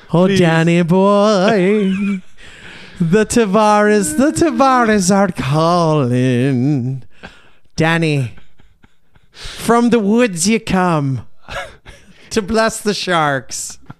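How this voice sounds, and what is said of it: Put-on Irish accent. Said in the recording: “He's not even Irish. ... I don't think this accent is either.”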